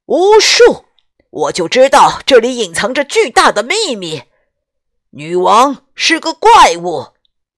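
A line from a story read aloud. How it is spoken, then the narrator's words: Loud cry. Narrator (Chinese): 威斯顿公爵高声叫道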